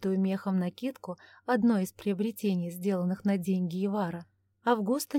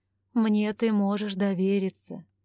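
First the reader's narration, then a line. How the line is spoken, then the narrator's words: Heavy sigh. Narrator (Russian): Августа тяжко вздохнула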